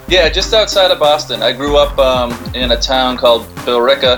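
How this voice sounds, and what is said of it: Massachusetts accent. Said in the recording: “I got that Massachusetts accent, so we can call it Ot Gnome.”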